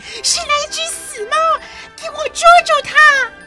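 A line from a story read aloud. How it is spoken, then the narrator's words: Empress shouting. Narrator (Chinese): 皇后大喊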